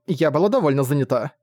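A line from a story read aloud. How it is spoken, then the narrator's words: Embarrassed snort. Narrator (Russian): смущенно хмыкнула Тайвин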